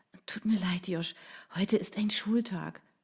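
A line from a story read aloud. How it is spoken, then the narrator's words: Sighed. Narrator (German): seufzte sie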